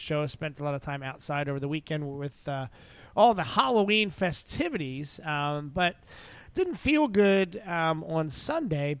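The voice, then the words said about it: Sick, fading, strained voice. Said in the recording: “I'm a bit under the weather, and I'm sure that you are happy with the fact that I might be slowly losing my voice.”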